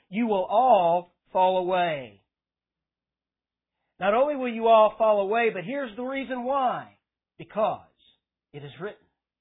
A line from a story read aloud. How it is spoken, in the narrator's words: he says